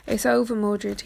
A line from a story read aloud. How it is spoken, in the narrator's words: he said